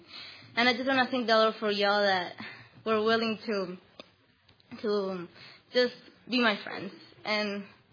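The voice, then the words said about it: Foreign accent in English. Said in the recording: “I'm from another country and I have an accent.”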